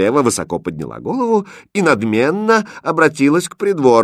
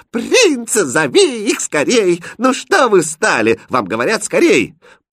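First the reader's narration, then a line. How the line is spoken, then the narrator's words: Cheerful shout. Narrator (Russian): Принцесса весело закричала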